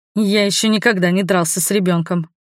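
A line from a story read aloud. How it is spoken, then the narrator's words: Snorted. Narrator (Russian): хмыкнул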